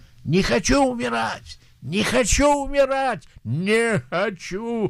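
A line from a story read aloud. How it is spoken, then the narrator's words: Dying scream. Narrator (Russian): когда он умирал, он кричал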